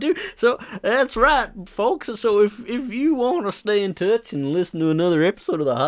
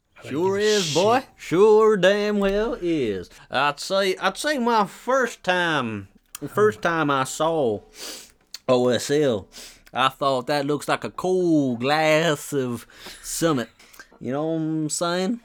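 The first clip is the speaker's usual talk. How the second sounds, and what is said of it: Good put-on Southern American accent. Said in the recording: “You did that really, really well. Like I can't do like the Southern American accent. ... You can't do that accent.”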